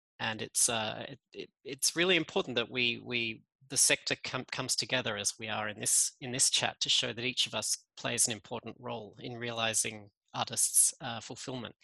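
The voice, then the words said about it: Australian accent. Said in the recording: “You can hear I'm Australian in my accent.”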